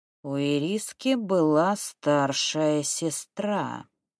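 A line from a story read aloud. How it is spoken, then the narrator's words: Drawled. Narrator (Russian): протянул Вузелок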